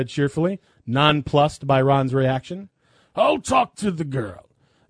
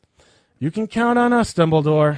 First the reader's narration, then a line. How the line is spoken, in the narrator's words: Harry sighed